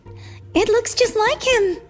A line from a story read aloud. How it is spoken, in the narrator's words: she cried